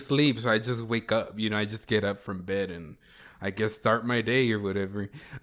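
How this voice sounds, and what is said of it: Sad, tired-sounding voice. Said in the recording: “I sound so sad.”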